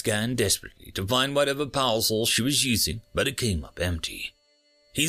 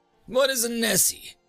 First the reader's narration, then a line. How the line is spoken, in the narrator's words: The captain laughed